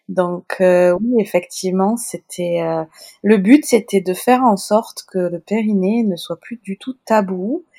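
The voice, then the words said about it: Sing-song Toulouse French accent. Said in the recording (French): “mon accent chantant toulousain”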